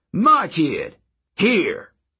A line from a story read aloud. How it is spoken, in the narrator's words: he yelled at the Legion